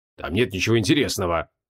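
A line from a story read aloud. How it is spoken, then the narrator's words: Gruff grumble. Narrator (Russian): буркнул Креол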